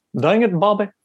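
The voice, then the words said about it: Hank Hill cartoon voice impression. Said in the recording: “can't you do a good Hank Hill impression? ... That's so good. ... that's pretty good. That's pretty good.”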